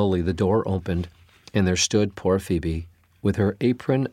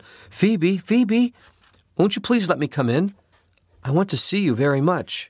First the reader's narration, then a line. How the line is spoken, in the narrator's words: she heard Phoebe crying and called out